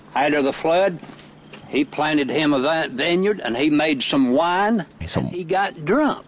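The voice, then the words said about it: Expressive rural hill-country twang accent. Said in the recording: “some guys in there that talk like this guy ... These are the hill people ... there's a unique twang to this accent that is a little bit different ... They're so expressive”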